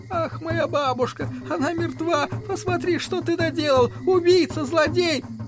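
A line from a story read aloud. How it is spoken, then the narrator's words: Wailing, crying. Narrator (Russian): Ананси начинает вопить и плакать и голосить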